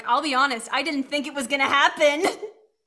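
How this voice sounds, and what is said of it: Impression of a colleague's voice. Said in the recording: “That was my Maddie impression.”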